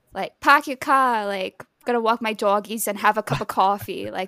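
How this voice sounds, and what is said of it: Thick put-on Boston accent. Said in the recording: “Boston accent ... from like the Northeast, but I don't have like that typical ... that's kind of thick”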